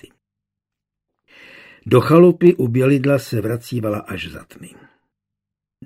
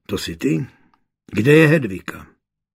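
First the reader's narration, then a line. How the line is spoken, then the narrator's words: Slightly disappointed grumble. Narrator (Czech): trochu zklamaně zabručel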